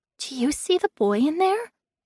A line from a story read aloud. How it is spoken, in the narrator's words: whispered, as if afraid to be overheard